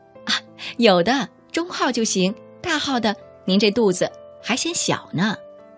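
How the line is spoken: Laughing. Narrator (Chinese): 我笑了

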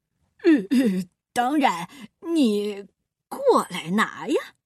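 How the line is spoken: Grinning, cheerful. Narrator (Chinese): 鳄鱼笑嘻嘻的说

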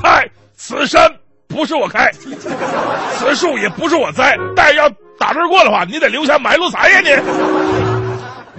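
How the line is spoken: Loud shout. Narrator (Chinese): 这劫匪高声大喊

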